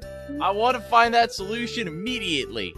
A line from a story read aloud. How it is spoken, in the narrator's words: yelled